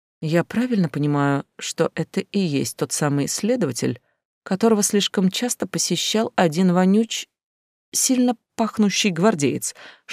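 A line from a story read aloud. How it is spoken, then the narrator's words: Whispered question. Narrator (Russian): Шепотом поинтересовалась я у Далтона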